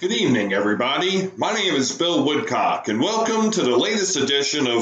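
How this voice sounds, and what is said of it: Usual voice. Nothing is said of it.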